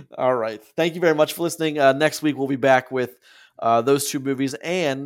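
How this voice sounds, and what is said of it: Hoarse, fading voice. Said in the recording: “my voice is kind of going hoarse, hoarse ... My voice is gone.”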